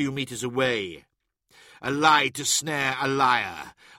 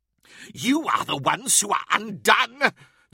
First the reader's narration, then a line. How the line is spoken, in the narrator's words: the creature cackled